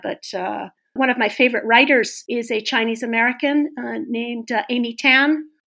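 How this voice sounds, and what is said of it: American accent. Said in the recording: “when I hear you, you know, it's quite refreshing because I do find American accent easier to understand.”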